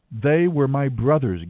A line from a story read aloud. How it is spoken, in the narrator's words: Gideon exclaimed